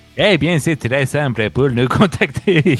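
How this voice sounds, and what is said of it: Half Québécois, half Spanish accent. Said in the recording (French): “C'est mi-québécois, euh, mi-espagnol ton accent.”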